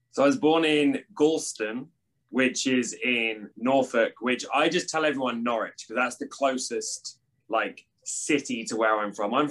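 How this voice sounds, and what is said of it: British accent. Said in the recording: “I love the accent. So obviously you're born in the UK.”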